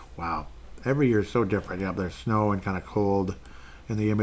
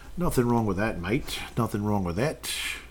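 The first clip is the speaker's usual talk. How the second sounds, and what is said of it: Poor put-on Australian accent. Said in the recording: “stop with the Aussie accent. You sound stupid. You're not doing it right.”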